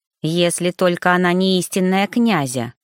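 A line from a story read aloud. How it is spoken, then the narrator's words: Stubborn grumble. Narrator (Russian): буркнула брюнетка, не желая так просто сдавать свои позиции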